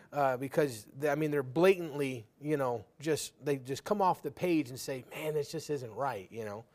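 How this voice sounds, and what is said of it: Sarcastic tone. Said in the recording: “I'm being sarcastic, if you couldn't tell.”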